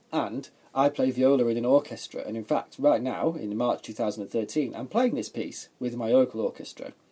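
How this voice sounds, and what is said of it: English accent. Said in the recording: “I'm an Englishman, as you might have already told by my accent.”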